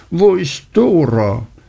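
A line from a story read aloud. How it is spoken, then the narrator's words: Cheerful calling amid chatter. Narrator (German): die anderen lachen und plaudern und rufen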